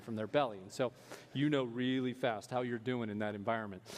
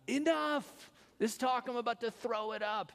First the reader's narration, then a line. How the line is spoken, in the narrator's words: they would yell